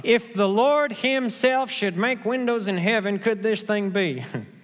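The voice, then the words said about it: Oklahoman accent. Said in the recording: “That's my uh, Oklahoman accent coming out there.”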